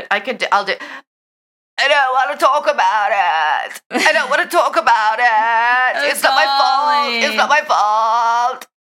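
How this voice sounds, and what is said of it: Imitates another person's voice. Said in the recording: “Oh my God, with the impersonation. ... it was fucking spot on”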